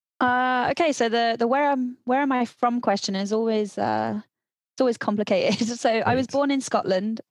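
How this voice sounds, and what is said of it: British English accent. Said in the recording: “I can hear your lovely accent coming from the UK”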